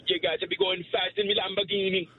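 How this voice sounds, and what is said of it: Put-on Jamaican accent. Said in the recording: “A Jamaican accent. ... Only Jamaican. ... That was good. Perfect.”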